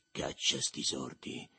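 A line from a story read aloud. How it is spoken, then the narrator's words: Low voice. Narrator (Italian): disse a voce bassa, per non superare il brusio della cucina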